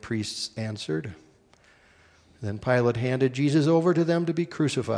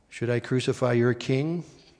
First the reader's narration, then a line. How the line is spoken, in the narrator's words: Pilate asked them